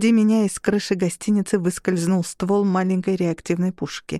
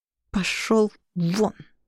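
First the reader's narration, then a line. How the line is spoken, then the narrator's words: Through clenched teeth. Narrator (Russian): процедила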